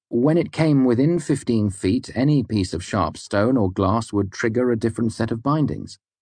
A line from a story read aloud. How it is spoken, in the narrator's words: I said brightly